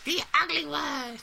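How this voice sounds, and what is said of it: Terrible cartoon character voice impression. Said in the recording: “terrible impression of Teen Girl Squad”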